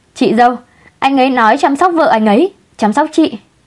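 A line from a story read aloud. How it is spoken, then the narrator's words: Loud drawn-out repetition. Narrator (Vietnamese): kẻ lỗ mãng, kéo giọng lớn tiếng lặp lại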